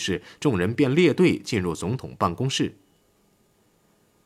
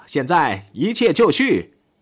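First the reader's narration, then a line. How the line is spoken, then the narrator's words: Shouting. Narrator (Chinese): 戈林却喊道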